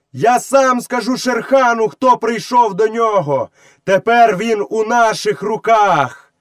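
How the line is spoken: Cupped-hand shout. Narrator (Ukrainian): Мауглі приклав руку до рота і крикнув у яр

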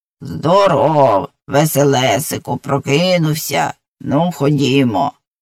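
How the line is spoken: Grinding but gentle voice. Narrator (Ukrainian): скриготливим, але зовсім не страшним голосом сказало

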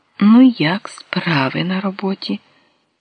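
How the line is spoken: Gentle question. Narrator (Ukrainian): Він лагідно спитав

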